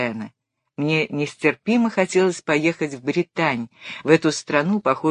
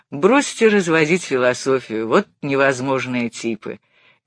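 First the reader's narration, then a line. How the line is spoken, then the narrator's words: Grumbled. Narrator (Russian): проворчал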